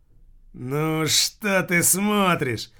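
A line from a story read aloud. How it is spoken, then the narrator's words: Dead man, angry question. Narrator (Russian): злобно спросил покойник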